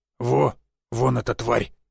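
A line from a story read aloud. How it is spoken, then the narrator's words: Hoarse rasp. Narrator (Russian): прохрипел Жига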